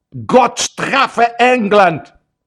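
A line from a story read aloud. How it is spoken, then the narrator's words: Shout from throat-deep water. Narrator (Russian): представитель правительства, находясь уже по горло в воде, крикнул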